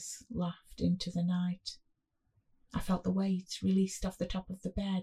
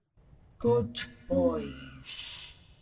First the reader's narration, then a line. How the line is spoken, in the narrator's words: he said in a voice unbelievably deep and growly